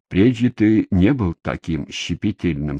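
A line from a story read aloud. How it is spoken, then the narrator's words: Plain. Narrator (Russian): сказал он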